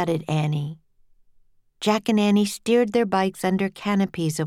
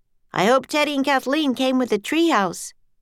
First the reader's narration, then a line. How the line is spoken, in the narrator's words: shouted Jack